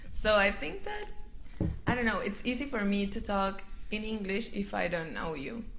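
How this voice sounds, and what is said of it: Strong Latin American accent in English. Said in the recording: “my accent is like very strong ... I don't look like a gringa and I don't sound like a one”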